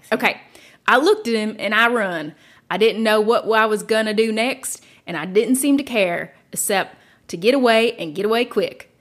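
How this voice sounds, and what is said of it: Reads quote in a put-on dialect. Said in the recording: “it's like in dialect. So I'm going to try to read it ... read it with Pete's accent.”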